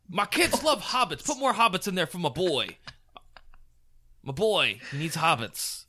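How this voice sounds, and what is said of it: Put-on voice of 80s movie executive. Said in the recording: “I'm not sure what that accent is. ... He's like an 80s movie executive.”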